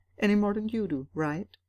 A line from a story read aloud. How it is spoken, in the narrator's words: He smiled brightly